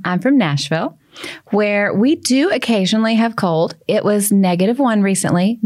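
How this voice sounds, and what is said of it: Southern American accent. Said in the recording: “her beautiful Southern accent”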